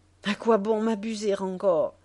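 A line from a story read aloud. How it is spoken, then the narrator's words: Sudden cry. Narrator (French): s'écria-t-il tout à coup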